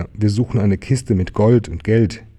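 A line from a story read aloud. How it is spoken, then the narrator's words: Little tiger calling. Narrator (German): rief der kleine Tiger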